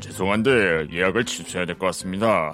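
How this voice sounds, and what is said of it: Imitates another person's voice. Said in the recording (Korean): “성대모사 되게 잘하신다.”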